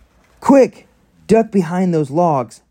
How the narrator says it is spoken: Fred yelled

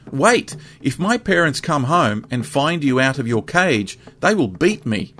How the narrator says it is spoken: The boy now cried out after him

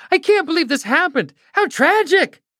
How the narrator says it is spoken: Another person cried

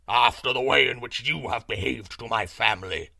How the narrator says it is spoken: roared the lion, in a voice of thunder

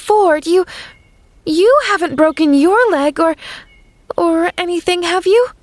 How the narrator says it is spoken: She gasped

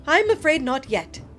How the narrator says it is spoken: Aubrey said

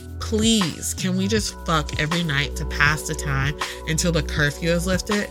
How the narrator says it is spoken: Sanaya groans

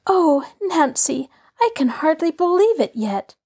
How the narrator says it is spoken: Allie declared happily

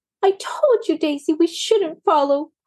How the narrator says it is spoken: cried Maisie

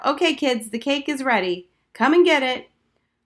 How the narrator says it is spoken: Hennessy called out

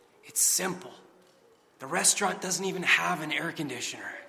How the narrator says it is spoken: the waiter smiled and replied in a whisper

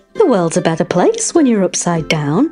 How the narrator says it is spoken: exclaimed, giggling

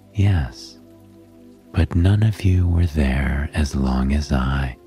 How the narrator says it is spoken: Hestia replied calmly

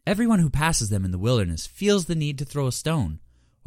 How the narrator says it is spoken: Horavatha purred

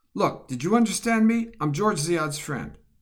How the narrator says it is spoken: Roth shouts into the darkness

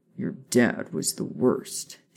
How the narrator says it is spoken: Sirius scoffed

